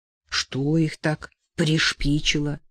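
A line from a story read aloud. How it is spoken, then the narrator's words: Angry father's question. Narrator (Russian): спросил отец, сердито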